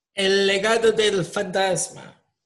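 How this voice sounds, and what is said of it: Put-on Spanish accent. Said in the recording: “I had that Spanish accent.”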